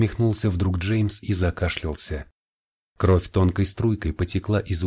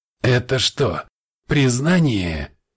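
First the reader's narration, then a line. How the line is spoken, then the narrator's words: Attempted snide remark. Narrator (Russian): Джеймс попытался было съехидничать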